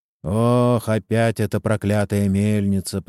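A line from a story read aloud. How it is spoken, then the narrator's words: Grumbling. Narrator (Russian): проворчал кто-то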